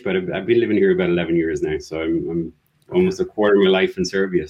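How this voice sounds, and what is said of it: Slight Irish accent. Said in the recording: “accent does not sound Serbian ... Originally Irish, you're still carrying a bit of the accent”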